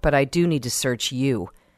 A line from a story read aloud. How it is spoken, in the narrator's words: grunted Kirk